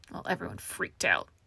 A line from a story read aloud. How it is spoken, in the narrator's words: Farrell muttered